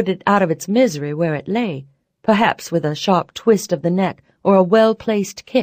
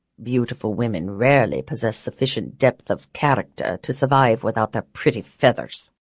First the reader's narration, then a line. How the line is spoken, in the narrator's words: he said dryly